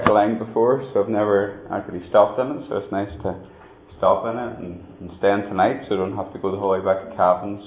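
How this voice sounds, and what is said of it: Tyrone Irish accent mixed with English. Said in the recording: “that doesn't sound much like a Cavan accent. Well, it's not ... it's from the other great footballing county in Ireland, which of course is Tyrone ... I'm from Tyrone originally and lived in England for a while, so my accent got mixed up there”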